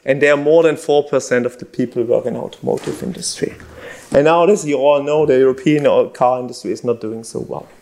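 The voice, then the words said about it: German accent from Stuttgart. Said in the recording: “if you didn't hear from my accent, I'm from Stuttgart”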